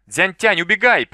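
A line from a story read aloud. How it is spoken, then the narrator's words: Involuntary cry. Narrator (Russian): Сяо Вэй невольно вскрикнул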